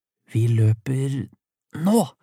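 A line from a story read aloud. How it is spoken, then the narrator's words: Whisper. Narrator (Norwegian): hvisket Elvin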